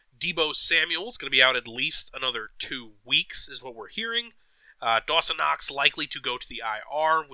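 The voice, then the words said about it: Strained, fading hoarse voice. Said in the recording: “I'm losing my voice a little bit.”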